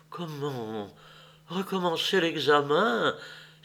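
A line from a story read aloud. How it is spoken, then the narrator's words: Exclaimed in terror. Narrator (French): s'écria avec terreur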